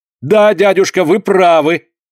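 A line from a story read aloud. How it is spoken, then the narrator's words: Loud exclamation. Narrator (Russian): громко воскликнул граф Альберт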